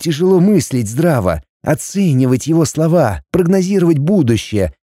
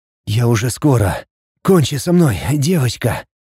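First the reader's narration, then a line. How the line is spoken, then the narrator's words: Rhythmic breathless hiss. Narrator (Russian): Подстраиваясь под каждый толчок, прошипел мне он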